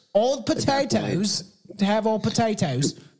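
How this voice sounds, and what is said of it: Exaggerated Berkshire English accent. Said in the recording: “What is that accent? Jesus Christ. ... That accent is from the attempt region of fuck all nothingness land. Berkshire.”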